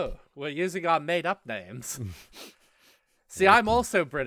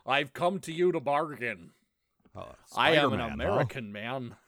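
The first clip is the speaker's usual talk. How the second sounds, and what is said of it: Put-on American accent. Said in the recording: “Benedict Cumberbatch's terrible American accent? ... Only when I do the voice. ... I can talk like an American person.”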